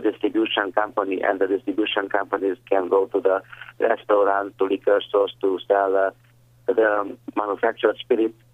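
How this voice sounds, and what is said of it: Hungarian-accented English. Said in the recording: “my crazy, fantastic Pennsylvania and Hungarian English accent”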